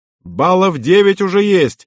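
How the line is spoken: Shouting. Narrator (Russian): прокричал

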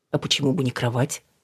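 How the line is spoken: Calm, joking. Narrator (Russian): Спокойно проговорил Давид, надеясь шуткой вернуть Алину в нормальное состояние

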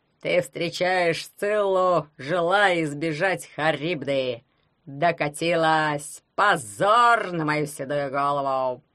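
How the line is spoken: Creaky voice of ring. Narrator (Russian): проскрипел перстень Феофила Гроттера

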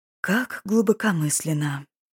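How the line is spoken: Whispered. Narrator (Russian): прошептал Ирвин

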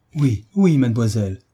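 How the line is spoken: Exclaimed effusively. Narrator (French): s'écria madame de Senneterre avec effusion

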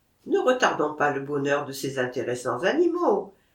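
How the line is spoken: Plain. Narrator (French): dit Maquet

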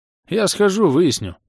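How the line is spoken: Bored, curt. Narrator (Russian): скучающим тоном бросил Бенгальд

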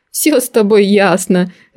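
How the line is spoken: Laughing aunt. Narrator (Russian): рассмеялась тетушка

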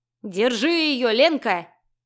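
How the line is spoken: Gleeful bass yelling. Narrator (Russian): радостно вопил крысеныш басом

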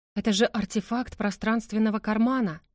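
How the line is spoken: Delighted gasp. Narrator (Russian): восторженно выдохнула Карина

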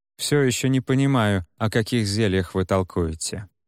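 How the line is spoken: Calm. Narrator (Russian): спокойно заговорил он

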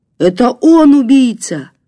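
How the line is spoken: Shouted. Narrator (Russian): крикнул охранник

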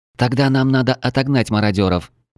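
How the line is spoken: Young woman exclaiming. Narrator (Russian): воскликнула девушка в окровавленном платье

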